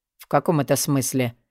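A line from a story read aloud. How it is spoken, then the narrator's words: Grumbled. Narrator (Russian): пробурчал Алви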